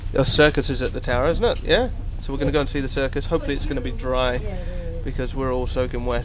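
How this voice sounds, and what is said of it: English accent. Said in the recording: “my accent got really English as I've been over here. And normally it's half English, half Northern Irish, but apparently it's now all English”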